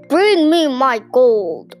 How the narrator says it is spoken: roared the giant

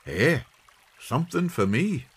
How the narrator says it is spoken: exclaimed the old man, his hands shaking with excitement

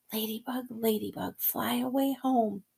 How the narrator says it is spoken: I whispered

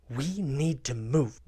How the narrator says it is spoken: Ren hisses to Connor

